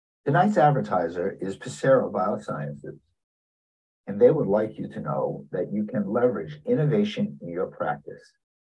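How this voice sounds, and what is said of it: New York accent. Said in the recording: “A person with a New York accent is narrating this.”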